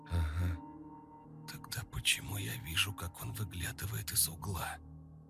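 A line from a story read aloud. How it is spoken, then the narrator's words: Whispered. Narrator (Russian): прошептала она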